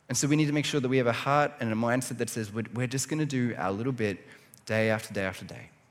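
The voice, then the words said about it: Slightly hoarse voice. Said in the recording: “my voice, a little hoarse this morning, I feel like it's getting stronger as we're going”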